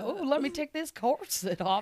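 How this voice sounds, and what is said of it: Southern belle character voice. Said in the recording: “I do, like, a southern lady who's waiting for her captain to come home... I'm a southern belle”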